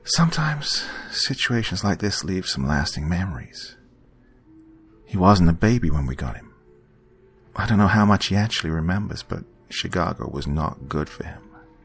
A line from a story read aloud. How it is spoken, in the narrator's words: She sighed and paused for a moment before saying